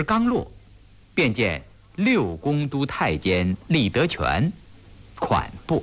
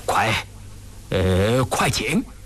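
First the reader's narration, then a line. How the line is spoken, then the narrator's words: Trembling excited voice. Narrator (Chinese): 张廷玉…激动的声音都发颤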